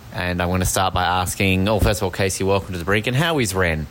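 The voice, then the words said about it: Australian accent. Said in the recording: “you and your Australian accent”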